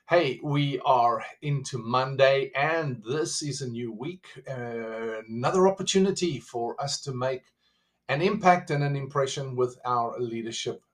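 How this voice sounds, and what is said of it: South African accent. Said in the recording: “with a South African accent”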